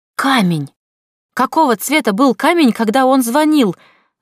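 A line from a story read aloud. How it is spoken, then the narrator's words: Sudden shout. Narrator (Russian): закричал вдруг Нор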